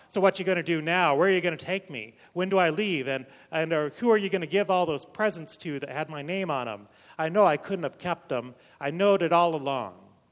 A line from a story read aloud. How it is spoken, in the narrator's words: Leonard snarled